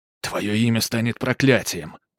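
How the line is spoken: Hissed. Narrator (Russian): прошипел Бернард

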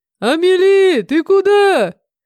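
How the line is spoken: Calling out after someone. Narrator (Russian): крикнул мне вслед Харан

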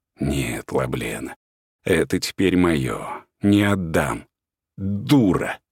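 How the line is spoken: Spat through teeth. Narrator (Russian): выплюнула сквозь зубы Магда

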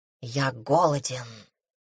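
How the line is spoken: Whisper near ear. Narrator (Russian): раздался шепот над ухом

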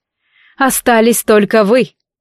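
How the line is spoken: Smirking snort. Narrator (Russian): Дарк хмыкнул

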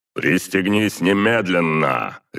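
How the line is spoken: Harsh commanding bark. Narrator (Russian): рявкнул я таким тоном, от которого на стройках даже бывалые мужики шевелились быстрее

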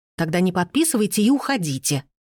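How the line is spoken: Stern growl. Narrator (Russian): строго рыкнула распорядительница

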